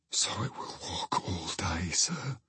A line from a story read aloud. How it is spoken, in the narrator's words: whispered Poole